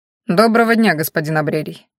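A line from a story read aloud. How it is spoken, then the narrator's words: Hurried farewell. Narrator (Russian): торопливо попрощался Харен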